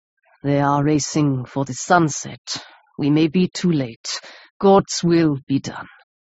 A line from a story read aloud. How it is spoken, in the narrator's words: He paused and went on in a hollow voice